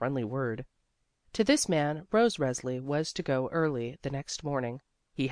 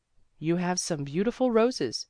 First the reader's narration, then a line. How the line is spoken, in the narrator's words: he exclaimed